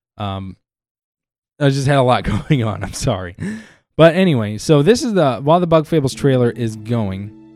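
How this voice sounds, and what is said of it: Hoarse, strained voice. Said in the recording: “my voice is getting a little hoarse because I've been talking for really long and very harshly on my throat. Also, I've been a little under the weather”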